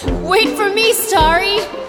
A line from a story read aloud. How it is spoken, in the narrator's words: shouted Mommy